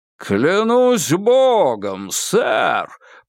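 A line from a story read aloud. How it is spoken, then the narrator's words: Booming. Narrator (Russian): прогудел Кинг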